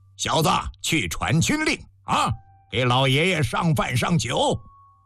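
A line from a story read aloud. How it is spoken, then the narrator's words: Stern commanding order. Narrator (Chinese): 厉声吩咐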